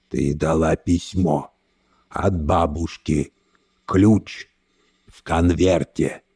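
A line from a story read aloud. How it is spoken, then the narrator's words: Strained, choked voice. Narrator (Russian): сказал он сдавленным голосом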